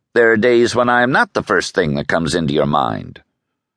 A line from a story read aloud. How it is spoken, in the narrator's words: replied coldly